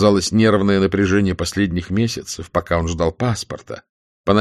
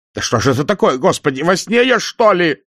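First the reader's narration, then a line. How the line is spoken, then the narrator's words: Shouting. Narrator (Russian): закричал Никандров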